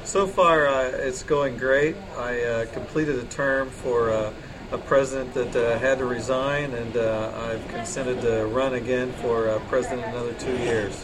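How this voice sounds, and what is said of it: Southern Indiana accent. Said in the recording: “I get my accent from Southern Indiana ... Yes, we can tell.”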